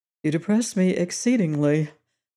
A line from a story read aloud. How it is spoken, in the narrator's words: Goad sighed